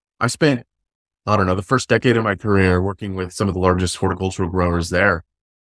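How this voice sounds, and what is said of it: American accent. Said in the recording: “you're obviously not from the Sunraysia region ... I can't tell if it's my accent ... I'm from Fresno, California”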